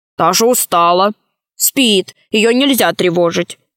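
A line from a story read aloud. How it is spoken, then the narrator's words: Gnome speaking angrily. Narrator (Russian): сказал сердито гном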